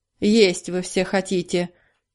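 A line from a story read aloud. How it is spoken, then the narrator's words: Grumbling. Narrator (Russian): ворчал он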